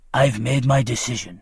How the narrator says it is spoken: he growled

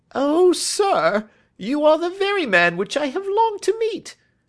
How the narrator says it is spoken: cried the little fellow

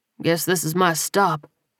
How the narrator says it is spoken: he muttered

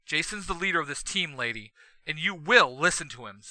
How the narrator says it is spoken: Zack snaps

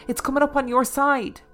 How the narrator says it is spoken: my brother cried

